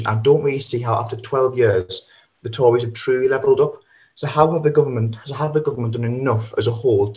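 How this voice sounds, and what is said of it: Northeast English accent. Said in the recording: “As you might be able to tell by the accent, I live in the northeast”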